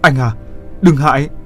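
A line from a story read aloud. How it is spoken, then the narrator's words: Urgent loud shout. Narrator (Vietnamese): Như Hoa vội hét to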